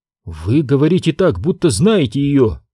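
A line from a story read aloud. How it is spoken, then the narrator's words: Exclamation. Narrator (Russian): воскликнул Оби-Ван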